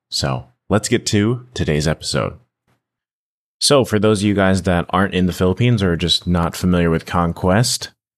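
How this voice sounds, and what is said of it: Tired, strained hoarse voice. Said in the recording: “if you guys can tell by my voice ... my voice is a little shot right now”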